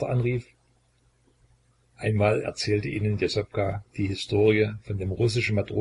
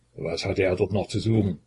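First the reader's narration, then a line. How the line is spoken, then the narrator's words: Indifferent grumble. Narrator (German): brummte Jesopka mit einer plötzlichen Gleichgültigkeit gegen Russland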